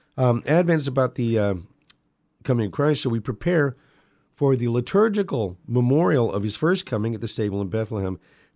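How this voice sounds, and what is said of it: Strained, fading voice. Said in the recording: “I got to keep the pipes lubed here. I'm losing my voice.”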